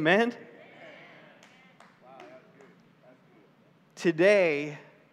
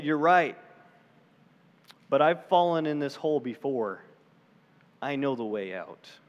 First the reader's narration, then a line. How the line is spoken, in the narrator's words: gently ... said